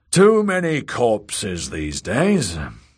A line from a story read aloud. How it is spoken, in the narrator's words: the elder brother sighed